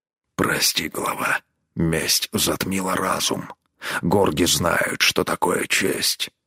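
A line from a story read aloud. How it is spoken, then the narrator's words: Hoarse rasp. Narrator (Russian): прохрипел он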